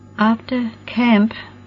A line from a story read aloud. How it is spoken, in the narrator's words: Roxy faltered and her lips trembled